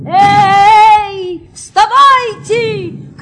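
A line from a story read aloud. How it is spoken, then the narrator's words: Shouted. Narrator (Russian): крикнул садник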